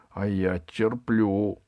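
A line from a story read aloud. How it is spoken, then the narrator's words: Through gritted teeth. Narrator (Russian): сказал Пашка сквозь зубы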